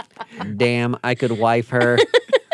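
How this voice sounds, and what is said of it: Robotic RoboCop character voice. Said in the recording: “Is that your RoboCop impression?”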